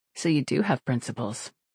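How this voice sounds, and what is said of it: Soft, mocking tone. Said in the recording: “she said in a softly mocking tone”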